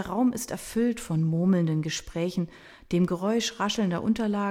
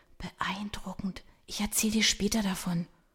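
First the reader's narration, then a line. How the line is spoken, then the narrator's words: Excited whisper. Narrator (German): Miriam nickt begeistert und flüstert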